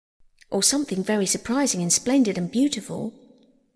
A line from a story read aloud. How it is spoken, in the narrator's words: murmured the Rat